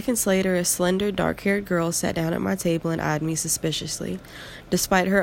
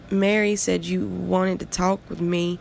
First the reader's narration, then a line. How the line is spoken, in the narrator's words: the girl stammered, her speech impediment doubtlessly worsened by frantic wondering